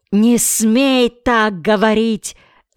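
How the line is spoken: Shouting. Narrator (Russian): закричал Рейчип

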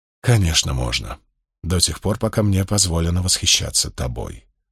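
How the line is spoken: Murmur. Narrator (Russian): пробормотал Спартак

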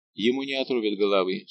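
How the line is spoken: Plain. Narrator (Russian): сказал Фуке

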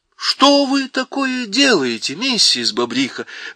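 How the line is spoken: Exclaiming. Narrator (Russian): воскликнула Сьюзен

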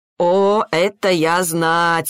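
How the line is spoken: Laughing. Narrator (Russian): рассмеялся Ричард

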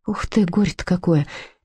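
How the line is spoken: Sad sigh. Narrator (Russian): печально вздохнула Людмила

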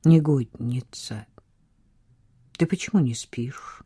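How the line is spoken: Gentle question. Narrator (Russian): спросил он мягко

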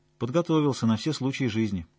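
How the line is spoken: Calm statement. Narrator (Russian): спокойно констатировала Настя

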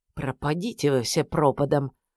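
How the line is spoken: Muttered under breath. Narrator (Russian): пробормотал себе под нос

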